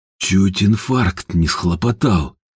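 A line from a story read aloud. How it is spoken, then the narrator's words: Whisper. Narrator (Russian): прошептал Ажуров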